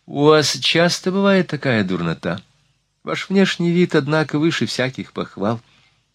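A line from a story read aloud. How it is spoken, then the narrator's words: Feigned indifferent question. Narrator (Russian): Накшиди делано безразличным тоном, спросила на ходу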